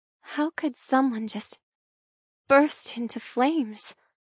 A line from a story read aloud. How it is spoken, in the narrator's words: I mumble, the memory from the day before still fresh in my mind